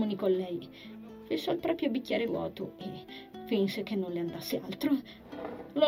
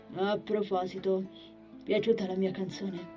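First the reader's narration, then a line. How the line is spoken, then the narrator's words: Plain question. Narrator (Italian): chiese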